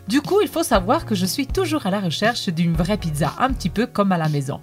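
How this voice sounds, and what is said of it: Italian accent speaking French. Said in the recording (French): “D'après mon accent, vous vous doutez bien que je suis italienne et plus précisément je viens de Naples”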